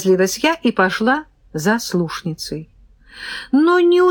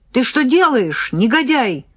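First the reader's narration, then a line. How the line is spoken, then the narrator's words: Yelling. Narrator (Russian): заорала я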